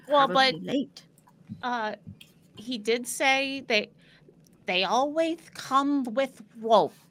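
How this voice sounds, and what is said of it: Odd creature-like character accent. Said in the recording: “Why are you talking like that? ... That's the accent. That's the rat ... accent.”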